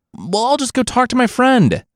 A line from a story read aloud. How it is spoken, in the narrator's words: Monkey cried out